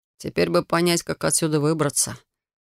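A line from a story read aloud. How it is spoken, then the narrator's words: Gloomy. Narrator (Russian): мрачно заметил Алекс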